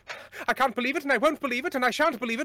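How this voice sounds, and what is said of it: Posh transatlantic accent. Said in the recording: “transatlantic accent ... It was invented by America, like by Hollywood, when they wanted people to sound posher than they were ... You can't do a British accent, but try and do one. So you start talking like this.”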